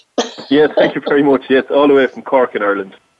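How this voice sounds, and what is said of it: Irish accent. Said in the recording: “all the way from Ireland. I love that beautiful accent.”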